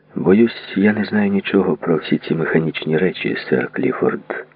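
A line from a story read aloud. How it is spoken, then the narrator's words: Calm. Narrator (Ukrainian): сказав спокійно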